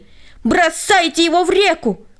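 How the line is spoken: Crowd yelling. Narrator (Russian): они все завопили

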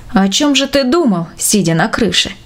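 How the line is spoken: Plain. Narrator (Russian): спросил Иван Степанович

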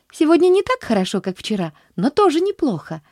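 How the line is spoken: Lively exclamation. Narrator (Russian): воскликнула она оживленно

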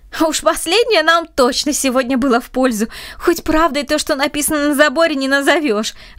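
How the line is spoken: Laughing. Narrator (Russian): рассмеялся Андрей

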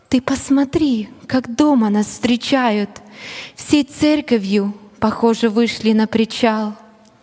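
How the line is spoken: Delighted amazed whisper. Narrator (Russian): не скрывая свой восторг и изумленье, миссионер супруге прошептал

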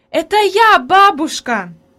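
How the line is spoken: Joyful shout. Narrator (Russian): закричала обрадованно Хайди

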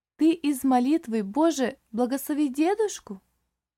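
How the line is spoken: Lively child's exclamation. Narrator (Russian): живо воскликнула малышка

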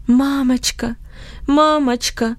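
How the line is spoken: Moaning. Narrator (Russian): стонал он

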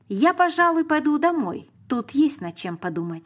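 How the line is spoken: Plain. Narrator (Russian): сказал Петр

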